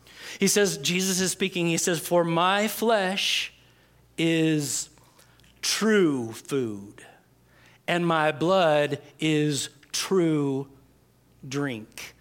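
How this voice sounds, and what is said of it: Slow, deliberate reading. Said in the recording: “I'm going to read this slowly”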